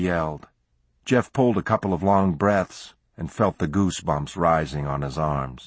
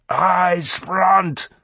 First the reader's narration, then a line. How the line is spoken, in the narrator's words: bellowed Clardy